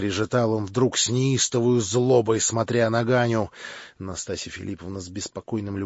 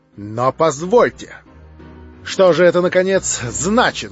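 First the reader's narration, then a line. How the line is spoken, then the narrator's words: Loud speech. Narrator (Russian): громко заговорил он, строго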